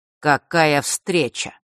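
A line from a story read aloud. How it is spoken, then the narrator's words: Cold greeting. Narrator (Russian): холодно поприветствовал Рок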